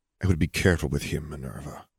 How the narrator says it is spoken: Dumbledore murmured

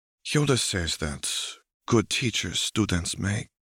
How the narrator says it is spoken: Shakti murmurs

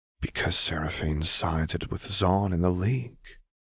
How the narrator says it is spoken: Lux said quietly

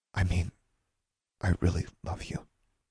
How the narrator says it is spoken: she said softly

